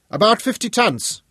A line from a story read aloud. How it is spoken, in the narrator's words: Hugo shouted back